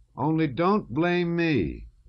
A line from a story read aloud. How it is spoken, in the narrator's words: the doctor shouted up after him